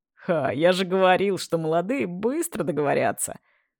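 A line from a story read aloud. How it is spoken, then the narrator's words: Laughing. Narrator (Russian): хохотнул Владимир Александрович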